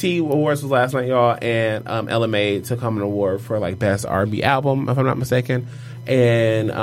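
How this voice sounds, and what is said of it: Usual voice. Nothing is said of it.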